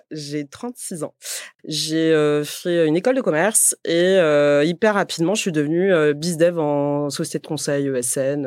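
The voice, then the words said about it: Slight southern French accent. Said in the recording (French): “je viens de Montpellier. Je sais pas si ça s'entend. ... Ça s'entend un petit peu. ... d'où venait cet accent”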